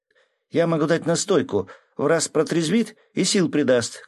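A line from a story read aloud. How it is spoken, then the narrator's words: Shouting. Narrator (Russian): крикнула Мила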